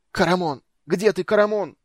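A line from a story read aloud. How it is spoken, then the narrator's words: Shouted. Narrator (Russian): закричал Рейслин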